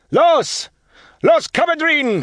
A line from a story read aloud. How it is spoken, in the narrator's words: shouting